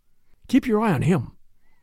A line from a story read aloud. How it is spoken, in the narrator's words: whispered Mr